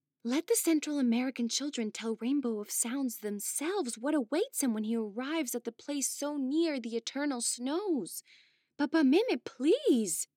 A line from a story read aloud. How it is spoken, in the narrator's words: begged both the sorceress and the witch